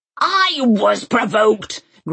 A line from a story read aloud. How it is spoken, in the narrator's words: Granny had roared at the headmaster